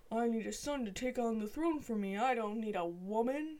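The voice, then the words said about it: Imitates another person's voice. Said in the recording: “good the imitation ... It was perfect. Spot on.”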